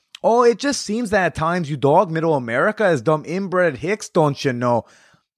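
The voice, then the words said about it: Put-on Upper Midwest accent. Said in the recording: “I don't know which accent to read this in because it's not from the South. He's from Michigan ... I don't know if that's Canadian or Minnesota”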